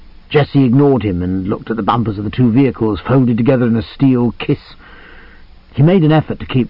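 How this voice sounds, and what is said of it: Usual voice. Nothing is said of it.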